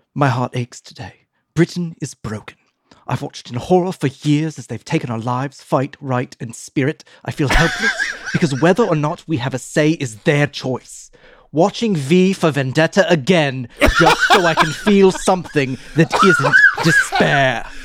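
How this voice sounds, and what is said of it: Deliberately bad British accent. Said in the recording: “Can I do it in a bad British accent?”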